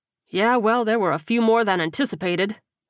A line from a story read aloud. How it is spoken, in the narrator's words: Trenton replied dryly